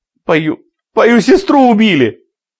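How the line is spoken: Shouting, bursting into tears. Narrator (Russian): выкрикнула она и разразилась слезами

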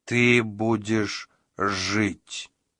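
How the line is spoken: Plain. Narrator (Russian): сказал он

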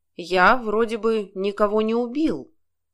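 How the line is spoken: Plain. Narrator (Russian): сказал он

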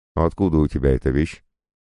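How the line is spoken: Seemingly calm question. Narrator (Russian): вроде бы спокойно спросил он

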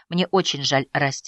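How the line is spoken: Quiet. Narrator (Russian): сказала она тихо

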